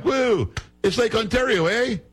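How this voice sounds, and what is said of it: Impression of Doug Ford, Canadian accent. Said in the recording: “that's a spot-on impersonation of this guy Ford, who's like the premier or whatever of Ontario”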